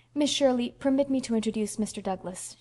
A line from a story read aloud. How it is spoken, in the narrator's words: she said stiffly